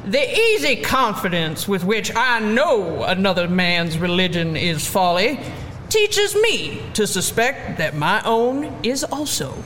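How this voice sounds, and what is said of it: Bad put-on Southern accent. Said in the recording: “Should I do a bad Southern accent?”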